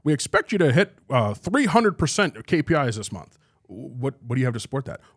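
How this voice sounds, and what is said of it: Impression of a regional sales manager. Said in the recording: “I do an impression for my friends of like every regional sales manager ever”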